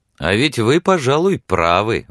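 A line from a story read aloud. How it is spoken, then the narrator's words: Exclaiming. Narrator (Russian): воскликнул он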